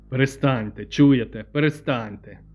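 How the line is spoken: Stern. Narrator (Ukrainian): суворо сказав Сміт

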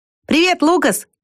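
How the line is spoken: Shouted. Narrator (Russian): крикнул он

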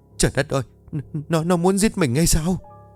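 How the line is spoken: Terrified indistinct stammering. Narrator (Vietnamese): Bà Bá mặt cắt không còn giọt máu, nói lắp bắp không nghe rõ được

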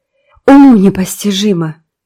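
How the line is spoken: Moaning. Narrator (Russian): простонала Марила

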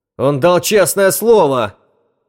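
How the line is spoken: Yelling. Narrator (Russian): заорал Чарли

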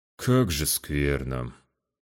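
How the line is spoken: Sad. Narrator (Russian): грустно

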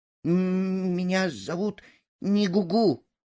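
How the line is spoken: Frightened captive answering. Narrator (Russian): испуганно ответил пойманный, барахтаясь в воздухе

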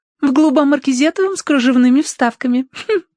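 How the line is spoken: Giggling reply. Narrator (Russian): ответила Роза, хихикнув

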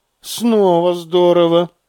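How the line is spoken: Sighing. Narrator (Russian): вздохнул Корин

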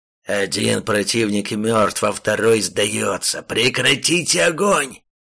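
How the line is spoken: Loud strained rasp. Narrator (Russian): Как мог громко прохрипел демон

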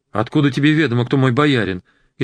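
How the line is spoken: Frightened babble. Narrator (Russian): испуганно пролепетал

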